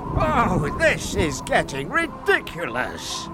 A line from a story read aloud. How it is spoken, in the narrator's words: cried the fish